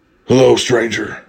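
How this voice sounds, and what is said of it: Deep gravelly Batman voice. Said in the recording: “This dude's talking in a Batman voice. ... Dude hits me with the Batman voice.”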